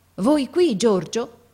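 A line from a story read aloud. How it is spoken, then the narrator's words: Amazed tone. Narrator (Italian): mio padre che dice in tuono di meraviglia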